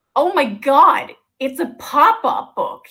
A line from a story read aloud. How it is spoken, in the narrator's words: he exclaimed, staring with inexplicable excitement